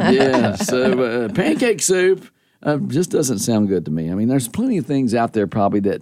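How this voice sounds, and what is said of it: Usual voice. Nothing is said of it.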